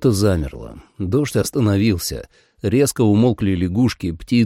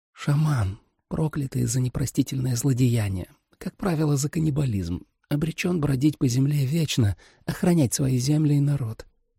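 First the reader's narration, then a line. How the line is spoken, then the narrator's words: Quiet. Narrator (Russian): тихо ответила Джули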